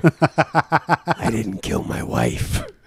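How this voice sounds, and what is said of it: Whispered, quiet voice. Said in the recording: “you're speaking that little whisper thing you do”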